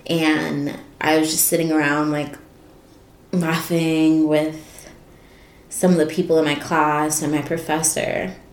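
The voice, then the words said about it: Choked-up, emotional voice. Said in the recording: “I'm getting a little choked up.”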